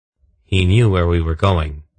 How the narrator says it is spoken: Geryon said flatly

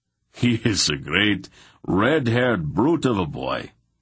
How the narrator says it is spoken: Anheg laughed

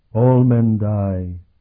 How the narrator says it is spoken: the ghost intoned

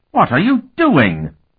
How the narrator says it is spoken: Markova half-shrieked

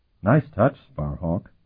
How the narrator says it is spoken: Tinian murmured

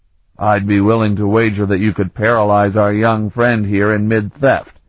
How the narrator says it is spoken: Ulaf chuckled

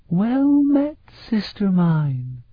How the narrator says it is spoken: murmured

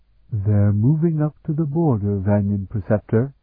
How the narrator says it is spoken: Engessa replied quietly

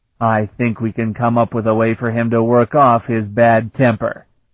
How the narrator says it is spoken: the styrick sneered

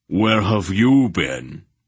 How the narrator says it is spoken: Barak demanded in a great voice

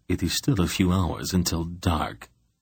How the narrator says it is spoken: he replied softly

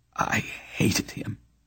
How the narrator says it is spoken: Olban whispered

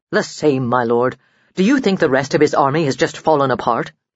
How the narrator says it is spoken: The Duke grunted

